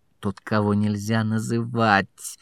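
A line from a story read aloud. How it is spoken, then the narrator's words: Growl. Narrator (Russian): прорычал Фадж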